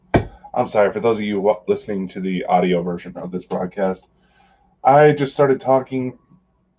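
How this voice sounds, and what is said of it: Funky voice from a cold. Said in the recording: “Now I'm just getting off of a chest cold, so my voice may sound a little funky. You may hear me break out into coughs.”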